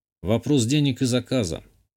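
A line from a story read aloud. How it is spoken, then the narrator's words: Disagreeing snort. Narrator (Russian): хмыкнул, не согласившись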